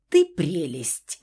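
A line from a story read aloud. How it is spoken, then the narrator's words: Amused snort. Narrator (Russian): хмыкнул Фауст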